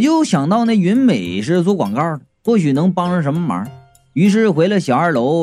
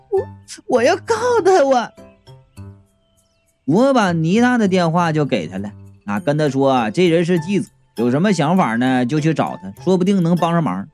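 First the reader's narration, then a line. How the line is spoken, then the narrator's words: Crying girl. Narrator (Chinese): 那女孩啊，就哭着说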